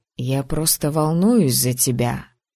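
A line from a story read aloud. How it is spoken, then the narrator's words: Grumbled. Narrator (Russian): перестав скалиться, буркнул он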